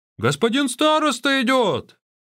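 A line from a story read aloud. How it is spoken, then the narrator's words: Exclaiming guards. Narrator (Russian): охранники воскликнули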